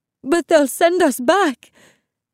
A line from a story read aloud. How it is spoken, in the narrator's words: Mommy sobbed